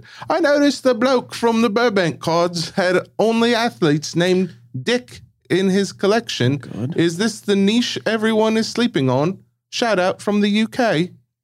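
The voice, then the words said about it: Put-on British accent. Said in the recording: “I'm going to try and do an accent. ... She knows my accents are not good. ... That was pretty good.”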